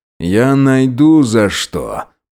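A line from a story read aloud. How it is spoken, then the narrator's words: Grumbling. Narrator (Russian): проворчал полицейский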